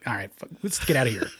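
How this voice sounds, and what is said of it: Sylvester Stallone impression. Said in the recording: “Great Stallone impressions... when I really got into Stallone, it sounded like”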